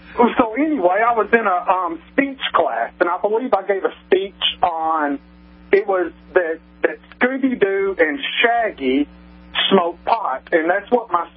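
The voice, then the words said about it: Southern American accent. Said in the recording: “I'm a Southern gentleman. ... my accent's a little bit different.”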